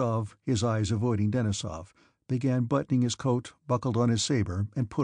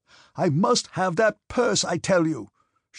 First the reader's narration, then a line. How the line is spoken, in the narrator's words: shouted Denisov